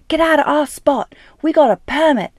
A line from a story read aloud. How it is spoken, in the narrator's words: shrieks one red-faced mother of a first-year college student from Wisconsin